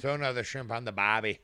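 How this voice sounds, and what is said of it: Attempted Australian accent. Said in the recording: “Fucking Australian. ... That kind of sounded more Austrian, to be honest. ... Sounded Australian.”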